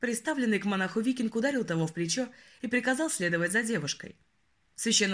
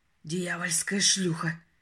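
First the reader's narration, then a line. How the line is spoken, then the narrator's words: Spat through teeth. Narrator (Russian): процедил монах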